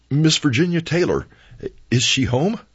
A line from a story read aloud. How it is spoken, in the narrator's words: With my last puff of breath and my last atom of courage, I blurted